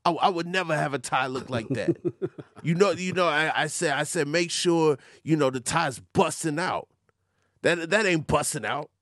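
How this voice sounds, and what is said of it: Good imitation of another person's voice. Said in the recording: “That's a very good Dame Dash impression.”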